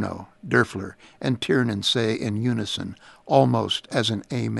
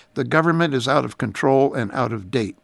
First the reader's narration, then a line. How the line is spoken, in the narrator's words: Newt says